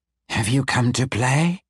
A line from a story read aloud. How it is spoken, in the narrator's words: the demon purred